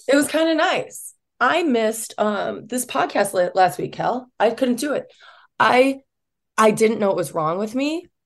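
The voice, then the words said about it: Voice still not fully back. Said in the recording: “you can tell in my voice, it's still not totally back ... I lost my voice for a solid 5 days”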